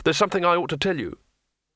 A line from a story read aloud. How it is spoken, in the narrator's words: said quickly